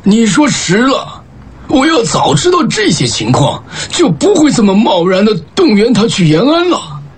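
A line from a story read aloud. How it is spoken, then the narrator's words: Laughing. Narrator (Chinese): 老钱笑着说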